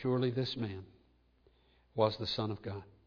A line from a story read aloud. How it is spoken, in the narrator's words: a soldier whose daring whisper of truth was heard above the clamor of unbelieving slander when he said